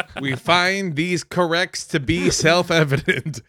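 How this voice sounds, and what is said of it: Imitates another person's voice. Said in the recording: “When did we get Joe Biden on the podcast? ... I never actually perfected that impression”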